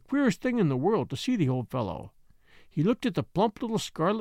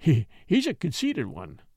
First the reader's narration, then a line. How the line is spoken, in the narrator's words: he chuckled